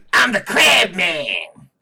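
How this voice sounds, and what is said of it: Imitates another person's voice. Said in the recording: “That's the accent I should have done with Grady Stiles, because I just get the image of fucking Danny DeVito as Grady Stiles.”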